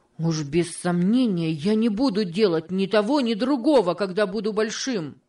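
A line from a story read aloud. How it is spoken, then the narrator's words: Exclaiming. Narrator (Russian): воскликнул Джордж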